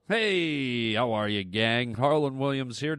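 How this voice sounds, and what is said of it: Silly clown character voice. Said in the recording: “doing a clown voice”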